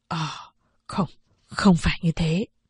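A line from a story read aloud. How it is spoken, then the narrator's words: Stammering. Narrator (Vietnamese): Kim Đồng ấp úng nói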